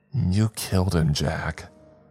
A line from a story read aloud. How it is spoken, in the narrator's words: she said through her teeth